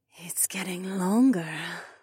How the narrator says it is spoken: she purred

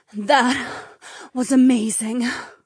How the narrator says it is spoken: Polina breathed

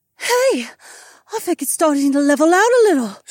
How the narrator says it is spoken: Sienna gasped

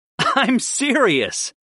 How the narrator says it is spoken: I laughed

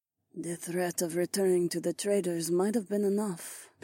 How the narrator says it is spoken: the catwoman murmured

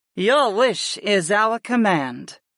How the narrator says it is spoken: Sarah purred

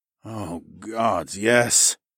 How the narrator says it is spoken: I groaned

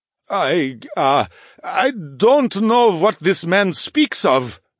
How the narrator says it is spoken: the grizzly stammered

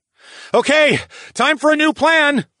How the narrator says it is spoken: I yelled, and I could feel my heart pounding in my chest

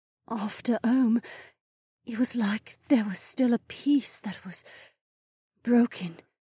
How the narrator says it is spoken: the incarnate murmured

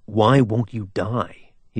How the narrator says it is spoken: He snarled

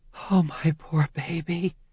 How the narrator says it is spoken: breathed

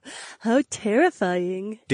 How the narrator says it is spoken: Daisy chuckled

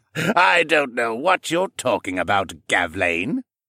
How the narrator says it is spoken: Siskern said with a jocular laugh

